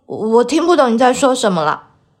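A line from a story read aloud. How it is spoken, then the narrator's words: Slightly trembling voice. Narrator (Chinese): 皮诺乔的声音有些颤抖地说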